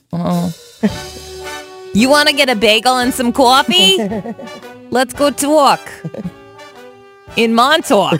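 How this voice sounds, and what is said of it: Put-on Long Island accent. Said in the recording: “Sorry, I only do Long Island accents.”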